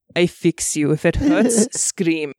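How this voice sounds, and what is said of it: Put-on Russian accent. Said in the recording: “I am part Russian. I am learning Russian and work on my Russian accent.”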